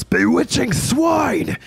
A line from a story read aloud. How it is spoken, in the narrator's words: He shouts